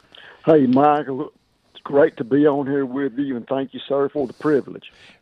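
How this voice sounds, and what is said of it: Southern US accent. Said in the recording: “I can tell by your accent ... Northeast Mississippi”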